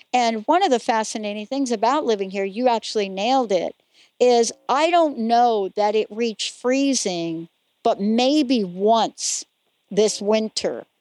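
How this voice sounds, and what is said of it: American East Coast accent. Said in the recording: “you can hear my East Coast accent”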